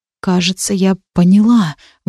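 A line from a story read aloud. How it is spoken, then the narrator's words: Breathless exhale. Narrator (Russian): выдохнула я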